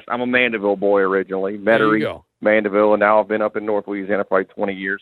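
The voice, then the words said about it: Slight North Louisiana twang. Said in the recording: “Is it a little twang? ... A little bit. Like, if you had told me that you lived in North Louisiana your whole life, I would have believed you.”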